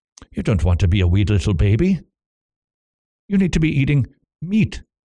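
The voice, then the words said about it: Bad Scottish brogue impression of Alistair Begg. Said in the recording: “that impersonation with Alistair Begg ... a really bad Scottish brogue”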